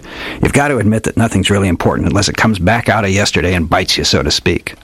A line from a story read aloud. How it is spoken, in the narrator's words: grunted